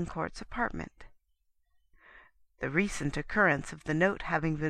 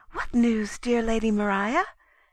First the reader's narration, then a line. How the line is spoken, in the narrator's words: asked Fanny eagerly